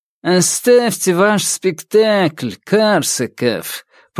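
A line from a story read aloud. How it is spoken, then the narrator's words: Nasal whine. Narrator (Russian): прогнусавил Раневский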